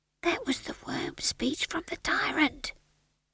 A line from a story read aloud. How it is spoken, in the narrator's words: whispered Howell